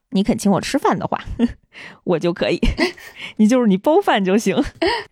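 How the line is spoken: Playful, laughing. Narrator (Chinese): 尼多罗会长还非常嬉笑的说

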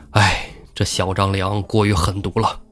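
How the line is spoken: Sighing. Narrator (Chinese): 公孙胜叹了一口气说

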